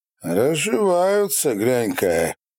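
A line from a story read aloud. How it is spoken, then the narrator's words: Mocking reply. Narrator (Russian): насмешливо откликнулся Фрол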